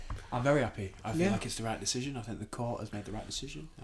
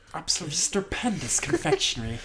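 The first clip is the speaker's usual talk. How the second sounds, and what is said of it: Imitates another person's voice. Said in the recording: “That's good impression.”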